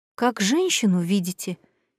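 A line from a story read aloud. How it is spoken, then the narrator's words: Quiet weary question. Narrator (Russian): тихо и устало спросила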